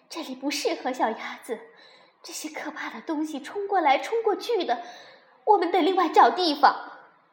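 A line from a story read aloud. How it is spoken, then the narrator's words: Breathless. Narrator (Chinese): 他喘了一会儿，才说道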